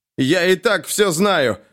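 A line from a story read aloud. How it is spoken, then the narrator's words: Shouting. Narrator (Russian): закричал Лещ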